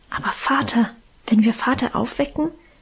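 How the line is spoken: Fearful whisper. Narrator (German): wisperte ich ängstlich

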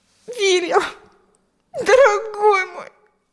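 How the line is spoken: Sobbing. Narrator (Russian): рыдала она

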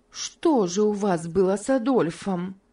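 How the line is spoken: Plain. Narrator (Russian): спросила Мари

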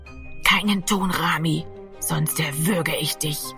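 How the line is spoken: Threatening whisper in ear. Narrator (German): flüsterte Gero an seinem Ohr

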